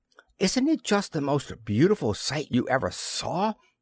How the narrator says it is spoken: she exclaimed

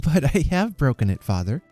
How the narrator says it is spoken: interposed, laughing

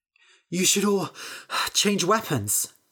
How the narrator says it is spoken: Bethany said, panting

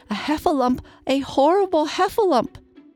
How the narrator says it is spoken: cried Piglet

